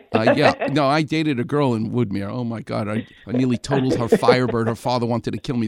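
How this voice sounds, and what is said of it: Far Rockaway New York accent. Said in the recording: “I still have my accent, thank God. I'm from Far Rockaway.”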